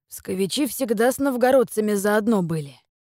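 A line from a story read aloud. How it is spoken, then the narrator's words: Sighing. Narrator (Russian): вздохнул управляющий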